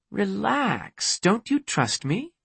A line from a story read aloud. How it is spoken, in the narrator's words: She asked in a playful tone